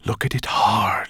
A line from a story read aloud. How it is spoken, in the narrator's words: he breathed